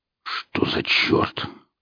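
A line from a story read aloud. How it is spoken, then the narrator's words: Muttered. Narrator (Russian): пробормотал он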